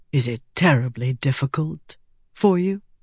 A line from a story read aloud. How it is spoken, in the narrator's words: He asked softly